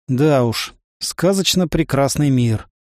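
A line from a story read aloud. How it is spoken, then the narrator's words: Sighing. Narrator (Russian): вздохнул я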